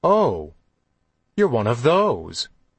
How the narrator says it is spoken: she said, her voice abruptly normal

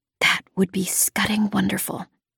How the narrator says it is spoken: I whispered back

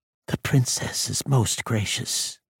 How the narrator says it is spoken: Tira said softly

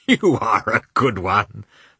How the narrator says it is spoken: remarked Oblonsky, laughing

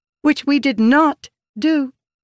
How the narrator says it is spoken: Rissin said

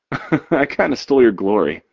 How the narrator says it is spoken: Cord laughs

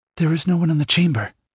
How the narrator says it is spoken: she answered

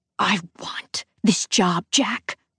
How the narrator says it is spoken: I hiss over the hand dryer

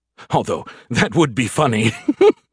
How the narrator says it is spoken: he chuckled

